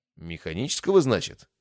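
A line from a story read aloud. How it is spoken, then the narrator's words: Snort. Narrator (Russian): фыркнула Сонг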